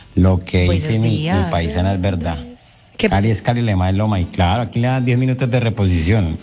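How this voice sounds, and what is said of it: Pretty regional Colombian Spanish accent. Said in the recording (Spanish): “acento tan lindo”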